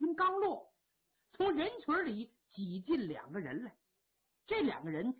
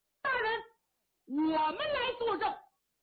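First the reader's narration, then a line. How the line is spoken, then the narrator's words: Loud shout from below. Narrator (Chinese): 下边有人高喊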